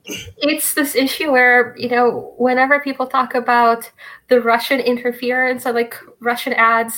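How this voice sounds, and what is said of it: Speaks with a noticeable accent. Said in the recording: “I can't say it in this accent”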